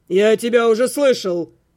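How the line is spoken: Barked, count. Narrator (Russian): рявкнул граф

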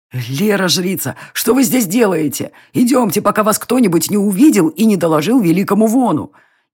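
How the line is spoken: Frightened whisper. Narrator (Russian): Испуганно шептал маг

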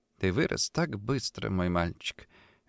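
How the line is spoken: Tender soft whisper. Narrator (Russian): тихо прошептала она

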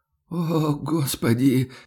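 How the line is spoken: Pained groan. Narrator (Russian): простонал тот, прижав ладони к ребрам

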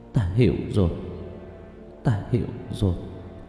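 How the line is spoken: Muttering. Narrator (Vietnamese): Lý Thu Nga chớp mắt lẩm bẩm nói

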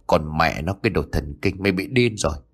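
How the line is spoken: Muttering. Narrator (Vietnamese): Thành lẩm bẩm

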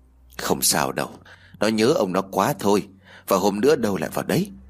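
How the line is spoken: Sighing, comforting. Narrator (Vietnamese): tiếng của bà thở dài, bà an ủi mẹ

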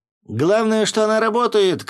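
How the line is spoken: Shouted. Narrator (Russian): крикнул кто-то

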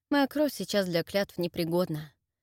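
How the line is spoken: Calm reply. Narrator (Russian): спокойно ответил Джерард

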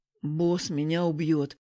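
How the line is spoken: Hopeless groan. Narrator (Russian): обреченно простонал Егор

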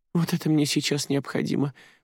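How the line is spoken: Thin high voice. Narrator (Russian): произнесла Джуди тонким голосом

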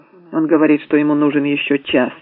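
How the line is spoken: Plain. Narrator (Russian): ответил Эббот

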